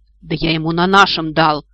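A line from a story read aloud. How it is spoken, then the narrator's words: Offended sniffing. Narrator (Russian): обиженно засопела потерпевшая сторона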